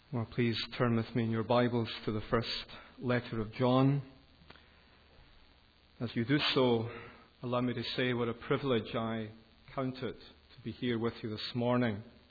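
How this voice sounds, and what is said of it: Educated Glasgow Scottish accent. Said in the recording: “my accent isn't a distraction for some of you who haven't heard it before. It's called Educated Glasgow”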